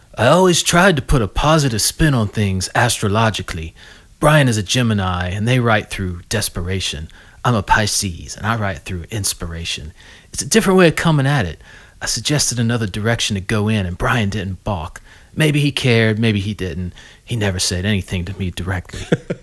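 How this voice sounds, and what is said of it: Imitates another person's voice. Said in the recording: “I'm going to do it in my Mike Love voice.”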